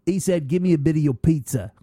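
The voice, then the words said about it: Attempted Scottish accent sounding English. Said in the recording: “I was going to do a Scottish accent ... Oh, that's English. That's sacrilege.”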